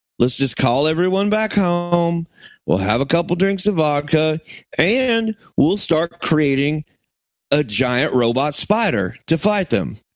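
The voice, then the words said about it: Put-on Southern accent. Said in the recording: “Why is the Russian accent? ... Because I don't do a good Russian accent. ... Give the Southern man a break ... Southern accents”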